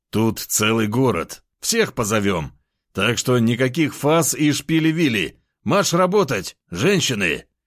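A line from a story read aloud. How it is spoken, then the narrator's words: Chuckle. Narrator (Russian): хохотнул я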